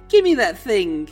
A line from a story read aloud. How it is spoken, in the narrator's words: instead of being afraid, she just laughed and said